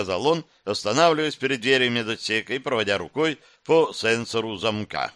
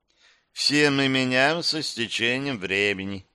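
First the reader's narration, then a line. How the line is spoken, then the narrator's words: Philosophical remark. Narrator (Russian): философски заметила Гера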